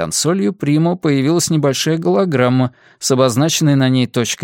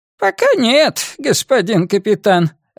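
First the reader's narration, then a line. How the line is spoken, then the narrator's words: Squeaky old voice. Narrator (Russian): ответил он своим слегка писклявым старческим голосом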